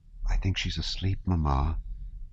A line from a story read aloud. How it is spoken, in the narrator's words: said Sonya softly